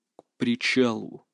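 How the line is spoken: Quiet command. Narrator (Russian): тихо приказал я

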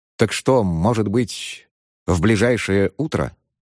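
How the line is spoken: Plain. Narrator (Russian): спросил Ценцинат

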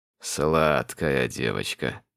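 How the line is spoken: Purred. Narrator (Russian): промурлыкал Тарин

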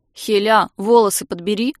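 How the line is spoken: Grumbled. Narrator (Russian): буркнула Улька

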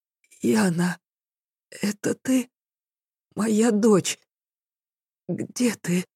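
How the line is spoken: Hoarse wounded whisper. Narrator (Russian): зашептала раненая хрипло

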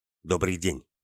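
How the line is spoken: Curt. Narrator (Russian): отрывисто произнес Орлов

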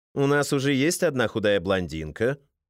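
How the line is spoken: Plain. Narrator (Russian): ответил Валентин

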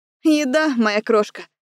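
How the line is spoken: Chuckling. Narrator (Russian): хохотнула я

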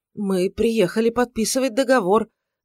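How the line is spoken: Bewildered babbling. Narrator (Russian): залепетал адвокат Пушкарь, в недоумении

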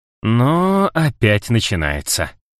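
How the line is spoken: Drawn out. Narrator (Russian): протянул он

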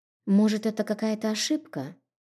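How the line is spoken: Mumbled. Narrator (Russian): Пробормотала

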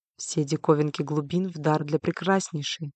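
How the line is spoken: Whisper in the ear. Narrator (Russian): шепнул ей кто-то на ухо

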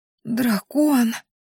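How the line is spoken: Astonished hoarse wheeze. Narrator (Russian): просипела я … от удивления

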